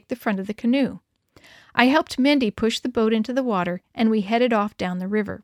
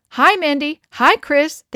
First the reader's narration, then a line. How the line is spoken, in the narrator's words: they called out